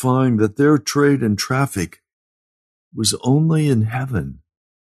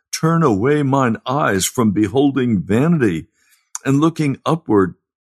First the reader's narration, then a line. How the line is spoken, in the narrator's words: the pilgrims cried out